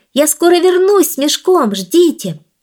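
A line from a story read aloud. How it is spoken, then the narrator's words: Shouting. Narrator (Russian): прокричав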